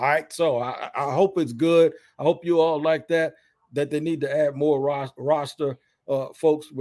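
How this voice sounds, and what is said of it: Usual voice. Nothing is said of it.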